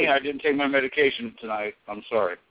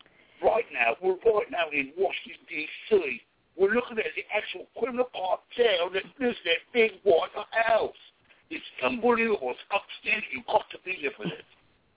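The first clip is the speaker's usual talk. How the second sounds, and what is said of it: Put-on Australian accent. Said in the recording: “that Australian accent, you know, how they pull them kind of, you know, talking people up”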